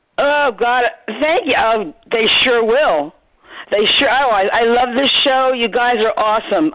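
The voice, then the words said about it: Strong New Jersey accent. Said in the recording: “you definitely haven't lost the Jersey accent ... I hear it cutting right through”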